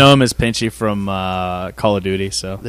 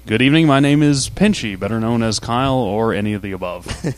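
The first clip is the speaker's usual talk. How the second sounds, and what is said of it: Smooth radio DJ voice. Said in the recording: “there's that radio DJ voice. That you're listening to some smooth jazz”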